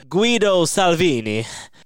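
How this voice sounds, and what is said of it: Put-on Italian accent. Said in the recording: “I'm going to hit a perfect Italian accent,”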